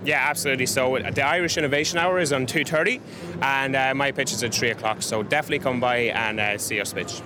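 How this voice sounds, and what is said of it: Irish accent. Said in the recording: “you've got a wonderful Irish accent”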